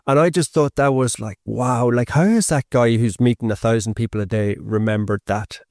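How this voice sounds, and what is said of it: Irish accent. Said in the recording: “he heard my accent. He was like, oh, you're from Ireland, are you? ... oh, hiya, Irish”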